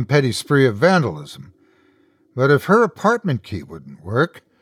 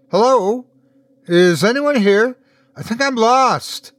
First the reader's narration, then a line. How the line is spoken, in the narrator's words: she shouted as she ran